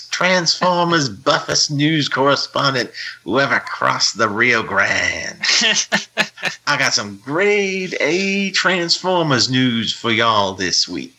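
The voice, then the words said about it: Put-on Cajun-like Southern accent. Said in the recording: “I almost sound Cajun when I do that. ... You do. Yeah. That's good. ... Cajun is Southern. ... You can talk in a generic Southern accent.”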